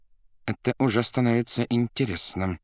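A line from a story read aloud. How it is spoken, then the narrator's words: Through gritted teeth. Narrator (Russian): процедил сквозь зубы Варенуха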